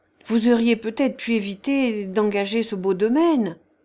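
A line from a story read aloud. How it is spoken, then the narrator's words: Sympathetic tone. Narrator (French): dit-il d'un ton de sympathie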